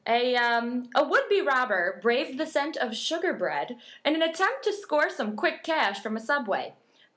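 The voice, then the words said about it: Newsreader-style delivery. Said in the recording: “news voice. I like news voice.”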